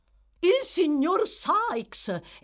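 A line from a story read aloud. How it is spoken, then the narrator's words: Joyful exclamation. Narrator (Italian): esclamò Barney con una gioiosità autentica o simulata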